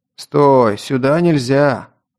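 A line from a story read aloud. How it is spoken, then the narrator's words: Deep voice, big young man. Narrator (Russian): пробасил высокий, крепкого сложения парень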